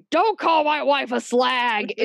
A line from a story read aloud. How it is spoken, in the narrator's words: David bellowing